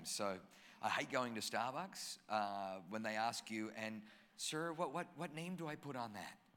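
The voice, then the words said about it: Australian accent. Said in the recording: “I don't have a German accent. I grew up in Australia... Grew up in Australia, so I've got an Aussie accent”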